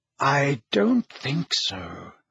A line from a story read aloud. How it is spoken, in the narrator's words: said Dumbledore quietly